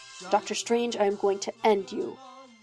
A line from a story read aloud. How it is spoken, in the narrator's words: Loki muttered to himself